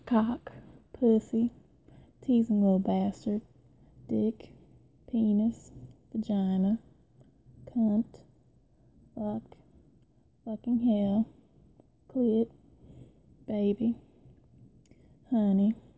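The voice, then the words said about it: Put-on Southern Belle accent. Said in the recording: “a true Southern Belle probably would not be saying all these dirty words ... I'm going to do this whole thing again in this accent.”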